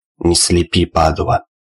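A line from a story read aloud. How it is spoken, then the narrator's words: Growling. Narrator (Russian): Рычание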